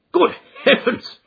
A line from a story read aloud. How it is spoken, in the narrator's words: cried the colonel, laughing